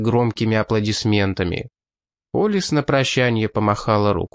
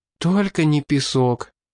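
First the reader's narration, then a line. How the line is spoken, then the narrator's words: Breathless young woman. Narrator (Russian): выдохнула девушка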